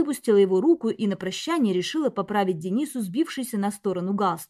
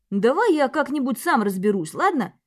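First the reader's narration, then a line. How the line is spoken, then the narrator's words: Exaggeratedly anxious. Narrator (Russian): Подчеркнуто взволнованно проговорил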